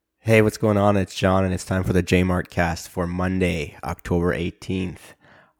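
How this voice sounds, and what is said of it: Sick-sounding voice. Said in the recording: “I don't know if you can tell from my voice, but I got sick.”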